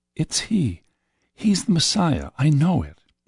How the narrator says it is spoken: I heard the woman say softly to her husband

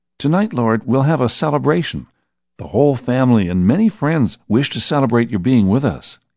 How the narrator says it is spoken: he said excitedly

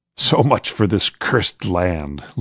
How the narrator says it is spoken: laughed a soldier

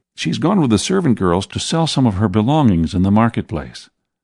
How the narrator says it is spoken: John answered quickly

